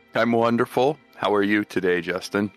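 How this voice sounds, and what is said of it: Flat monotone voice. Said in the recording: “You seem a little monotone over there. Do you got a little bit of excitement there in your voice there?”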